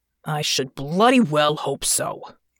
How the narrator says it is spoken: Hansen growled

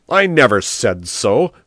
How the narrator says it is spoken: shouted Biondo

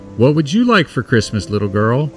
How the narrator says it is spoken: Chris asked in his jolly Santa voice

